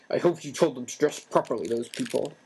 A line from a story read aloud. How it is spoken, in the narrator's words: snarled at once